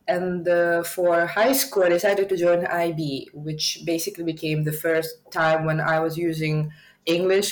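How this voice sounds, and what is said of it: Russian-accented English with American influence. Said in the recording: “I do sound more like a Russian immigrant from US”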